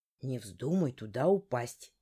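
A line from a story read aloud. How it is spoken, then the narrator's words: Quiet. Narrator (Russian): тихо проговорил Коул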